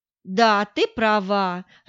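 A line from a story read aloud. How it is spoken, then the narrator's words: Burst of laughter. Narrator (Russian): расхохоталась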